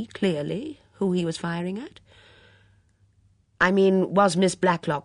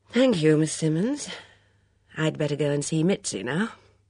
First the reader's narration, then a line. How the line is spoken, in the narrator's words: He said with a sigh